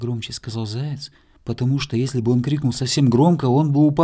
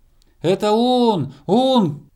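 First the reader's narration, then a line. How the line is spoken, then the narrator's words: Squirrel shouting from afar. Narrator (Russian): крикнула со звезды белка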